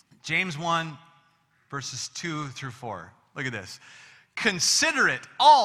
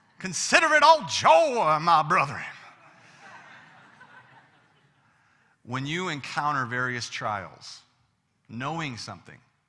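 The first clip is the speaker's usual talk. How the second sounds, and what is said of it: Put-on Southern American accent. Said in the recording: “I feel like a southern accent is required.”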